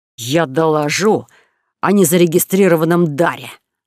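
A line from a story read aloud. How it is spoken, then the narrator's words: Spiteful promise. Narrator (Russian): злобно пообещал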